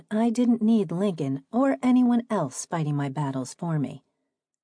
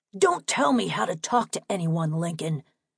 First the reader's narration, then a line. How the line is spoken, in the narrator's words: Richard spat